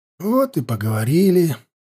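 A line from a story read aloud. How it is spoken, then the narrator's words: Glum sighing mutter. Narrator (Russian): уныло пробормотал Хаста, со вздохом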